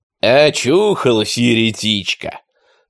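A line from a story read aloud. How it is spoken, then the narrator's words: Thick, greasy voice. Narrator (Russian): сказал кто-то жирным голосом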